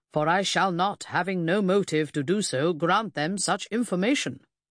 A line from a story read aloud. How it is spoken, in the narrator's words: he boomed out